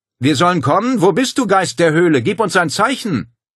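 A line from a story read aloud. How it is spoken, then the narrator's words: Calling through cupped hands. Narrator (German): Paul formte mit den Händen einen Trichter vor seinem Mund und rief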